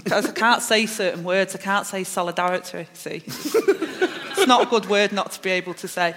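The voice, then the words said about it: Manchester accent. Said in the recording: “I've got my accent, I'm from Manchester, I speak a certain way”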